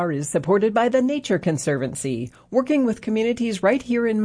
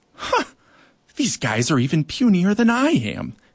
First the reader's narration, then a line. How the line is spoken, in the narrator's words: he muttered